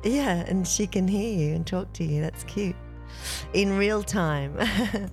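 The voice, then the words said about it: Slightly croaky voice. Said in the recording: “my voice is a little croaky today”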